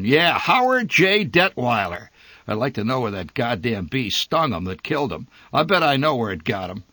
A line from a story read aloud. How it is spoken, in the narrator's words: he roared